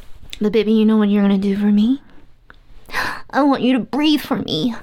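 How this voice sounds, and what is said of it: Put-on soothing character voice. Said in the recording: “I'm in this dumbass voice”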